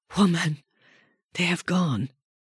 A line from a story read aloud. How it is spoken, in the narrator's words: she heard the Roman call out weakly